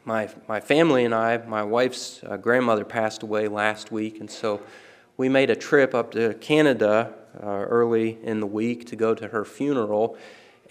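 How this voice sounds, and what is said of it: Weak, sick-sounding voice. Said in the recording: “My voice is a little bit weak. ... the Canadian crud, which has caused problems for my voice and my throat”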